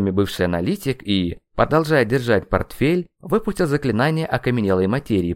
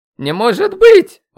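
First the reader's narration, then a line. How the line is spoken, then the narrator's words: Exclaimed. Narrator (Russian): воскликнул Васисуали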